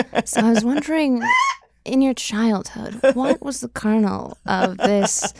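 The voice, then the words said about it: Imitates another person's voice. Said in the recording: “my best fresh air impression ... Terry, take it away.”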